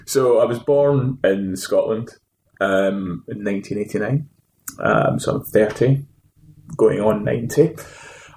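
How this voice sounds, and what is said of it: Scottish accent. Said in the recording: “You've got a Scottish accent. ... Yeah, I've got a Scottish accent.”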